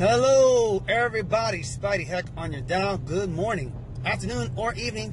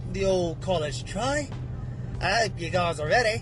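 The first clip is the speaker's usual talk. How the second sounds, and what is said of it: Mixed British and Australian put-on accent. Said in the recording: “That's my British accent and my Australian accent mixed into one.”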